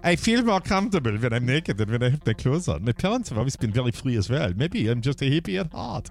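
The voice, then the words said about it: Heavy-accented Heidi Klum impression. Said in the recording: “I know she doesn't have the heavy accent, but I like putting it out there.”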